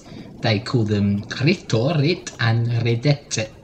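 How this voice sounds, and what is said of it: Put-on Italian accent. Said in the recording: “I don't know why I'm putting on an Italian accent”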